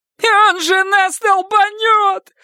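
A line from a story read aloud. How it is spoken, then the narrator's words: Shrill old-woman shriek. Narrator (Russian): завизжал Бобби старушечьим голосом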